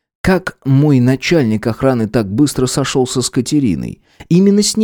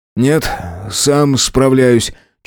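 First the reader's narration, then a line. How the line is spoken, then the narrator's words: Slightly tired. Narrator (Russian): чуть устало заявил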